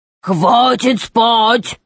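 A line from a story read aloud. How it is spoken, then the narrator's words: Troll's thunderous echoing roar. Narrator (Russian): зарычал тролль так громко, что голос его, усиленный эхом, разнесся на километры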